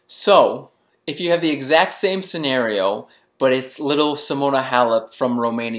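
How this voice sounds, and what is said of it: Usual voice. Nothing is said of it.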